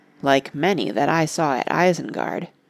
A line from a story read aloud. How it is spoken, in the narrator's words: muttered Merry